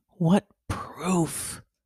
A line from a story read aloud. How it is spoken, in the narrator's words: he muttered to himself